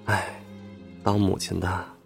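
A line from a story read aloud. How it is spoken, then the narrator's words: Choked-up sigh. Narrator (Chinese): 我鼻子有些酸，叹道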